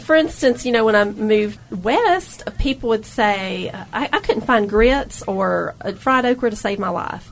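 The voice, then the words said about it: Southern American accent. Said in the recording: “I think that is our identity in the South. I mean, look at this accent I have.”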